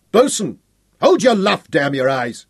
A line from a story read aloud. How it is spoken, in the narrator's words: he snapped at the helmsman